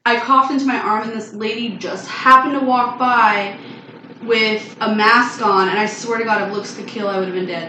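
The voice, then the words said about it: Hoarse, partly lost voice. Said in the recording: “my voice is still kind of gone from that night”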